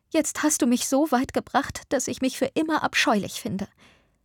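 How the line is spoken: Sobbing woman. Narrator (German): schluchzte sie

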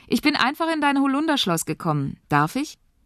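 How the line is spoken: Girl calling out. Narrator (German): ruft das Mädchen

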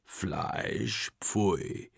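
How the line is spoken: Bird croaking. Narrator (German): krächzt der Vogel

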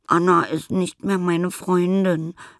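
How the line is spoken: Sobbing. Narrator (German): schluchzt Nelly

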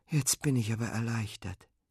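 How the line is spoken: Sighing. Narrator (German): seufzt Fine

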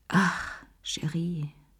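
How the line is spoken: Woman sighing. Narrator (German): seufzte sie

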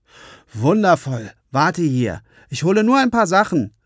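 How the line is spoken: Called out. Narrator (German): rief Johannes

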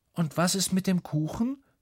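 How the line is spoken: Calling after her. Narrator (German): ruft Lukas ihr hinterher

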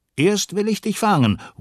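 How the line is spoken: Calling out. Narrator (German): ruft er

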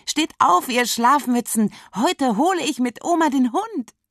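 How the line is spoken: Very excited. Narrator (German): Lisa ist furchtbar aufgeregt

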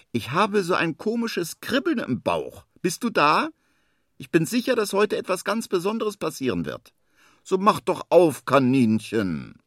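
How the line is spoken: Calls out. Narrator (German): ruft er

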